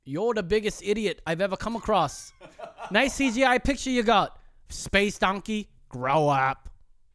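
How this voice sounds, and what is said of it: Put-on New Zealand accent. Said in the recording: “Give me an accent to go with. ... New Zealand.”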